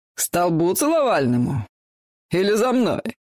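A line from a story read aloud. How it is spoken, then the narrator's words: Guffawing. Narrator (Russian): Он все хохотал и хохотал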